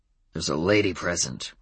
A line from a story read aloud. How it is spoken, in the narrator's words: growled Adam